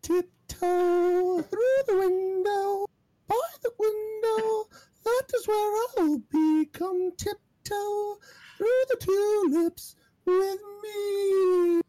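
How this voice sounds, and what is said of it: High-pitched sung character voice. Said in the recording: “can I still do that voice? ... my voice cannot get that high anymore”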